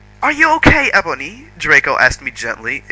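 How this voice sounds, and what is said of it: Bad put-on English accent. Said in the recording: “Excuse my terrible English accent. That was bad.”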